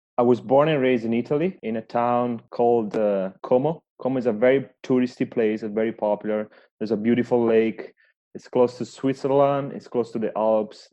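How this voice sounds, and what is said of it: Non-Canadian accent. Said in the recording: “the accent, it doesn't sound Canadian.”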